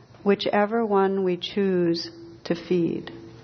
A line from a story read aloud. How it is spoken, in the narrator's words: His grandfather smiled and quietly said